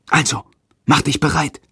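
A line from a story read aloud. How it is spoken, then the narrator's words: Whispered. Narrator (German): flüstert Jendrik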